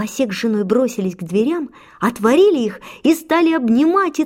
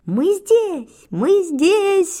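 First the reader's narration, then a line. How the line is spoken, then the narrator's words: Sudden shout, boys together. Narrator (Russian): вдруг закричали мальчик с пальчик и братья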